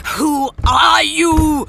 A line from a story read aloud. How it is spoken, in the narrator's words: she roared at him